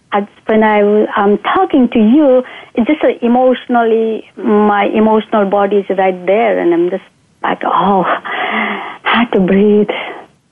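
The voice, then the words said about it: Unsteady, unclear emotional voice. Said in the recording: “I'm still scared and my voice is not clear ... But my voice, you can hear”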